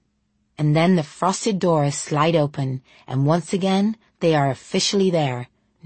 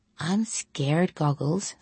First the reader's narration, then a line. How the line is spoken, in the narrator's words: Sonia whispers to her brother in English